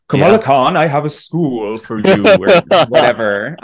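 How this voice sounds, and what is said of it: Poor impression of another person's voice. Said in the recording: “That was a terrible impression. ... Sir Patrick Stewart is so angry.”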